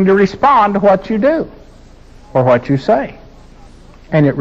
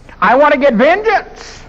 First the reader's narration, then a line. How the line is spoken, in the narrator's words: she shouts out